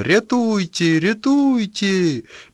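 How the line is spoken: Shrill shouting. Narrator (Russian): Кто-то кричал визгливым голосом

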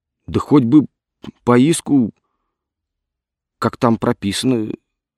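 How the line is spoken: Timid. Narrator (Russian): робко заявил Вавилов

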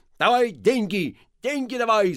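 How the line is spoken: Angry shout. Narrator (Russian): закричал он сердито

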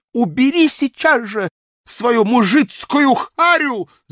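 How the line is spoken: Shout. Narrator (Russian): закричала она

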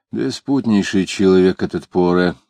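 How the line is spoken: Very quiet speech. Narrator (Russian): продолжал Иноков, говоря уже так тихо, что сквозь его слова было слышно ворчливые голоса на дворе

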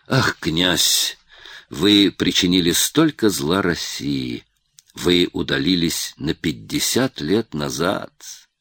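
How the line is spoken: Sigh, then subtle smirk. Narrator (Russian): вздохнул Бенкендорф и прибавил с тонкой усмешкой

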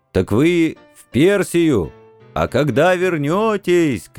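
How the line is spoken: Shouting after someone. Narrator (Russian): кричал вслед Максим Максимыч

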